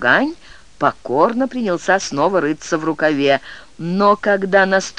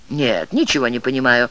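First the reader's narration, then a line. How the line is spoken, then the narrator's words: Sharp, curt. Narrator (Russian): резко ответил Дао Гань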